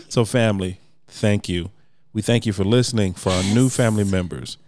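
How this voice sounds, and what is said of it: Smooth radio announcer voice. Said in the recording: “You using the whole radio voice today? ... Nah, this is like the radio voice, bro. ... I have a sexy voice. ... Sexy speaking voice.”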